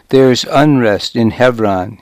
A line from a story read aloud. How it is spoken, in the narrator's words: he said